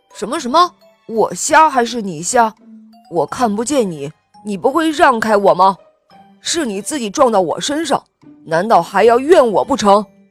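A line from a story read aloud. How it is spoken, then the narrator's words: Loud roaring. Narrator (Chinese): 他大声地吼道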